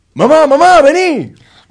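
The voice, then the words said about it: Shouting. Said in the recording (Spanish): “¿Por qué gritas así?”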